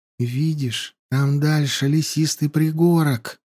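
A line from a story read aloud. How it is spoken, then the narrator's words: Whisper. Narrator (Russian): прошептала Янди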